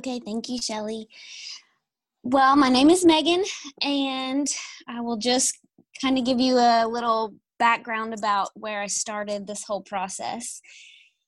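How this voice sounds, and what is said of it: Southern American accent. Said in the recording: “You guys are going to love her Southern accent.”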